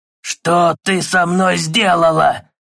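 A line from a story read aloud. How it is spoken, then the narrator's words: Losing control, shouting, growling. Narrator (Russian): Сорвался на крик и зарычал, лишаясь самообладания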